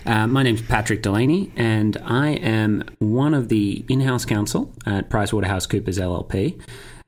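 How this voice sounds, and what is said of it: Australian accent. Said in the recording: “my dulcet tones ... not a Brooklyn accent ... I am, in fact, an Australian”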